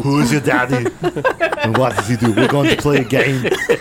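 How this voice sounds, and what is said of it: Imitates another person's voice. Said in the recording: “That's Kindergarten Cop. ... Starring Arnold Schwarzenegger. ... That's ... best impression.”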